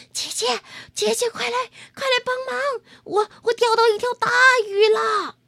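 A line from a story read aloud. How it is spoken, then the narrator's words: Panting, breathless. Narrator (Chinese): 猫弟弟喘着气儿说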